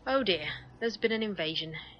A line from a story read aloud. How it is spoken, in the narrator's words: he sighed